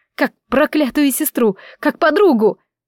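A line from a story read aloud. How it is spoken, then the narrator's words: Furious yelling. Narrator (Russian): заорала в ярости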